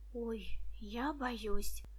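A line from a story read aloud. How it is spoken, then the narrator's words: Frightened whisper. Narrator (Russian): прошептала Муся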